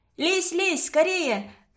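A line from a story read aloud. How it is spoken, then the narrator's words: Shouting from inside stove. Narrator (Russian): кричала Таиска из печки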